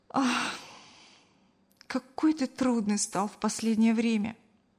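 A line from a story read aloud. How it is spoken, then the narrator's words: Sighed. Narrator (Russian): вздохнула Кристина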